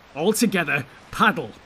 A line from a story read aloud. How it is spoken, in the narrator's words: shouted Boromir